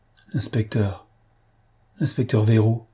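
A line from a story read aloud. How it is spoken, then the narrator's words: Stammered. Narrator (French): balbutia l'huissier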